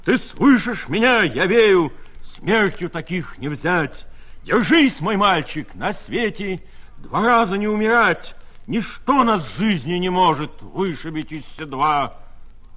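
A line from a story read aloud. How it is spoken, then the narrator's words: Major breaking down, shouting. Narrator (Russian): майор в оглохшее радио, не выдержав, закричал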